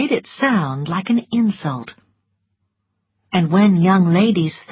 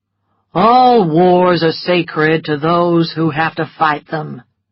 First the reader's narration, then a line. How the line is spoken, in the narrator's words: replied Rhett, in a bored and lazy voice